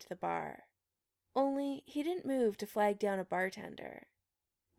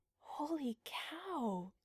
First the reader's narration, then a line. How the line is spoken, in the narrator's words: Julie whispered